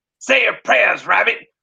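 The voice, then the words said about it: Cartoon cowboy character voice. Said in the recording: “Like Yosemite Sam?”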